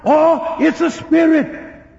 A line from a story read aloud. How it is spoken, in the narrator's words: got afraid and they screamed and they cried out